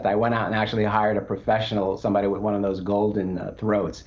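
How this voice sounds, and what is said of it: Nasal New York accent. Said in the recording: “my nasal New York accent”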